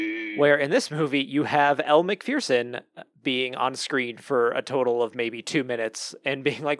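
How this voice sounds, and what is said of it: Usual voice. Nothing is said of it.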